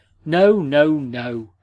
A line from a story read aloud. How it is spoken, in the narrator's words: exclaimed Chichikov